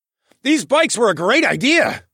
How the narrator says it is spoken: yelled

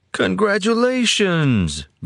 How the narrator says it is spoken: Gruder cried out, beaming

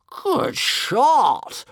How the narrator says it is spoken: roared One Eye, enjoying himself hugely

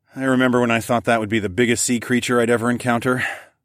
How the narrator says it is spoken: I sighed

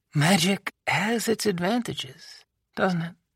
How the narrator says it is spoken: She murmured

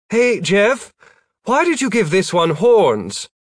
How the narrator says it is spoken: Gwen called out

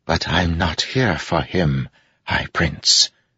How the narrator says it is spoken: he whispered

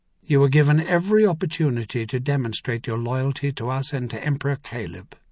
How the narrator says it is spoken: she said flatly

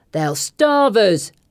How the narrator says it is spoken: a man with hollows under his cheek shouts

